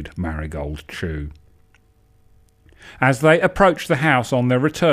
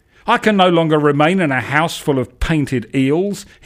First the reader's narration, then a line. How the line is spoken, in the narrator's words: shouted, looking stricken